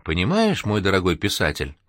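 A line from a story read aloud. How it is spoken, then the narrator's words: Caring, gentle voice. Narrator (Russian): продолжил он заботливым ласковым голосом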